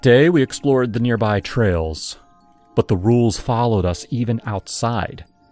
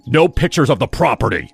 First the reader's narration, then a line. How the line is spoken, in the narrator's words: His tone was sharp, nothing like the charming host from the night before